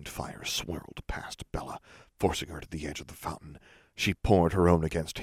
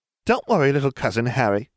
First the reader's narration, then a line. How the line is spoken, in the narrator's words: she laughed